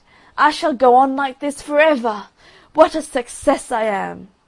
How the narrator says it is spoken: he cried

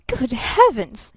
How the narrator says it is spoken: he gasped

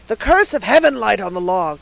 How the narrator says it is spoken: he exclaimed

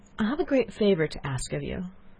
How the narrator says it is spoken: she said timidly after a moment's silence

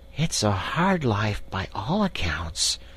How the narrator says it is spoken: murmured the rat, sunk in deep thought

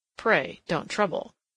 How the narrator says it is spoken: murmured T

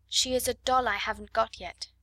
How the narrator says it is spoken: she said

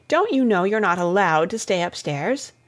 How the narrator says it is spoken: asked Miss Zielinski crossly

